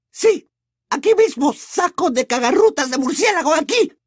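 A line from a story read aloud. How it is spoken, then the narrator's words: Woman shrieking. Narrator (Spanish): chilló la señora Fig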